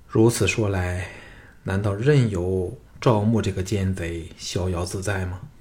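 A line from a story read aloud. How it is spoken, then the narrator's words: Sighing king. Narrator (Chinese): 庄襄王叹道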